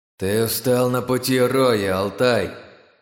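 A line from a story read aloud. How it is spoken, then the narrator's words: Hollow, muffled voice. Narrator (Russian): голос Диса зазвучал глухо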